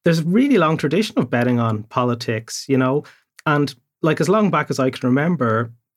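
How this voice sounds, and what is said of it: Irish accent. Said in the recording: “being from Ireland ... You might have noticed the accent.”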